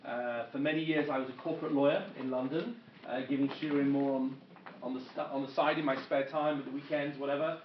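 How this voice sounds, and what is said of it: English accent. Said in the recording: “my accent, as you can tell, I am not American. I am originally from England.”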